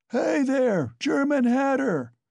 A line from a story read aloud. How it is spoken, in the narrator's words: bawling at the top of his voice